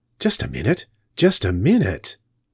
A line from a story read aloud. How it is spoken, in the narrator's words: muttered the Doctor